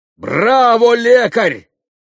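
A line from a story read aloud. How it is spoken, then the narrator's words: Shouted from his seat. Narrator (Russian): крикнул Митя со своего места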